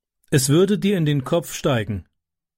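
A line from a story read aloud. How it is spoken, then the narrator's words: Plain. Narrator (German): sagte Tyke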